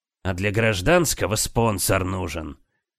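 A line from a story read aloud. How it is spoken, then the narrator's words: Angry grumble. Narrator (Russian): Сердито буркнул Пимен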